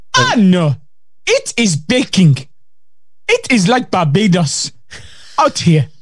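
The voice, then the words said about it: Put-on Geordie accent. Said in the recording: “That's an accent. Let's just call it Geordie.”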